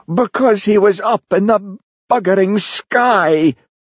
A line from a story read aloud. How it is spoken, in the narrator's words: howled Jimmy